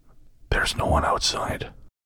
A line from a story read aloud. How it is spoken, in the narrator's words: She whispered softly into my ear